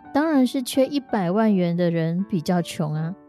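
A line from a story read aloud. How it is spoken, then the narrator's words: Laughing. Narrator (Chinese): 富豪就笑着说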